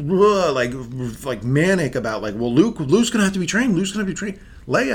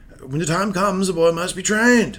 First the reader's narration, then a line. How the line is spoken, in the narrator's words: Obi Wan, snapped to attention and said